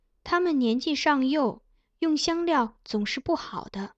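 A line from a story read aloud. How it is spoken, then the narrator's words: Soft answer. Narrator (Chinese): 秋荷轻声答道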